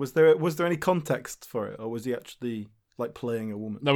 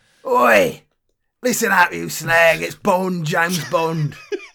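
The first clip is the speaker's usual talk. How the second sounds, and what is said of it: Imitates another person's voice. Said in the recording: “my Daniel Craig impression”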